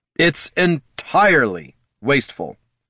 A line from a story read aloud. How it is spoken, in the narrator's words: snapped Jin